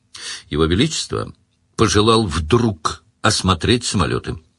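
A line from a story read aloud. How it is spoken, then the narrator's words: Neutral courtly tone. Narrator (Russian): сказал Сварог нейтральным тоном опытного царедворца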